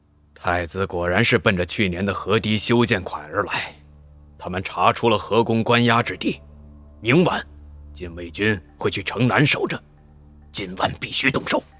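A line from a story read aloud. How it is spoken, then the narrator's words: Deep, grave. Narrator (Chinese): 钟礼文才抬手沉声道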